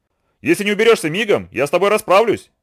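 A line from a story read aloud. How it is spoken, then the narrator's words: Shout. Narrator (Russian): крикнул Ананси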